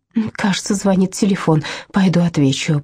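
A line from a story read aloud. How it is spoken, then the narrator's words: Muttering. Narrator (Russian): пробормотала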